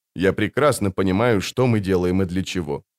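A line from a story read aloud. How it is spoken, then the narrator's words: Dry. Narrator (Russian): сухо ответил он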